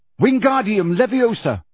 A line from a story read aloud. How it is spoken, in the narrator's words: he shouted